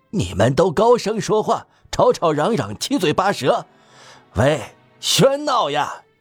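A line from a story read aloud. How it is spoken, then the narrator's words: Loud voice. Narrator (Chinese): 吉尔诺曼先生……大声说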